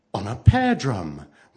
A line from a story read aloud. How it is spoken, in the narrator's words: the girl answered, still speaking in a most cheerful voice